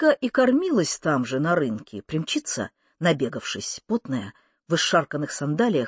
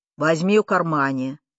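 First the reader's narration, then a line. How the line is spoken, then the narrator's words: Stern. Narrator (Russian): строго скажет дядя Сёма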